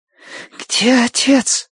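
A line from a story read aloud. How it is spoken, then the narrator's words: Girl's demanding rasp. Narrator (Russian): прохрипела девочка требовательно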